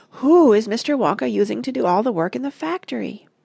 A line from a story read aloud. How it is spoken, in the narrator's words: cried Charlie